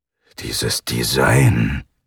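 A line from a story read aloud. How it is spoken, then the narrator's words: Murmured. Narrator (German): murmelte Ivanov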